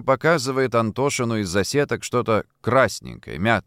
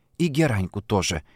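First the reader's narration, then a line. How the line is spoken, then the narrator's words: Whispered prompt. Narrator (Russian): шепотом подсказывает ей Шурка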